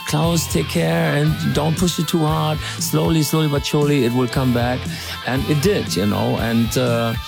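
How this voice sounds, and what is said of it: Imitated Viennese accent. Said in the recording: “in this Vienna accent”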